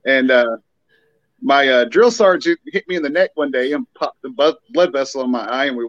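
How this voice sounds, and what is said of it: Southern American accent. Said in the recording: “true Southern accent ... he just lost his marbles with the accent”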